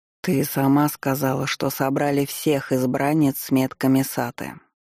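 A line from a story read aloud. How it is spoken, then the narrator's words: Bored voice. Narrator (Russian): скучающим голосом произнес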